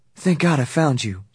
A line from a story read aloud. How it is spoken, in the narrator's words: she sighed